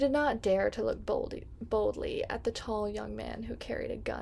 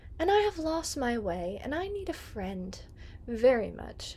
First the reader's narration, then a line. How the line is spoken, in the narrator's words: the stranger said kindly